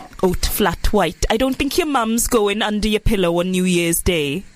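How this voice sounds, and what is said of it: Attempted Welsh accent. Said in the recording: “I can't do a Welsh accent. Why did I even try?”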